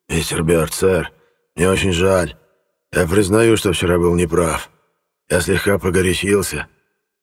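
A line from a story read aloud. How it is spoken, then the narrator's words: Timid forced words. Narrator (Russian): Он не без робости выдавил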